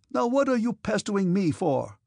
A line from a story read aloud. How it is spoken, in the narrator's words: cried Denisov, suddenly losing his temper